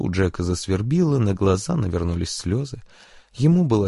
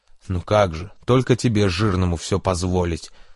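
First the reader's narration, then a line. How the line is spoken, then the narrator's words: Angry snapping. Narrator (Russian): зло огрызнулся кто-то из пассажиров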